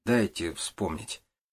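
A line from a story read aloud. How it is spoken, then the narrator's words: Muttered. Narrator (Russian): пробормотал он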